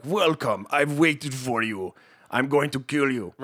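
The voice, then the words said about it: Mock Russian movie-villain accent. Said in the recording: “let's not even get started on the accents... terrible voice... like straight out of like a Rambo 7... Like Russian accent”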